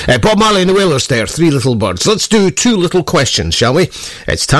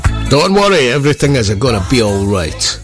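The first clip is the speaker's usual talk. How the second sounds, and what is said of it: Put-on Italian accent. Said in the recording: “I don't know why I said that in an Italian accent.”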